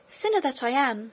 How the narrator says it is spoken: exclaimed Maritornes

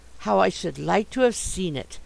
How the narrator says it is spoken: I murmured to myself

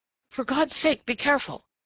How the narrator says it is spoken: gasped

